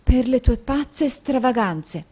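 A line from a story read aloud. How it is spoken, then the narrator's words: Wife speaking under her breath. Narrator (Italian): affermò la moglie sottovoce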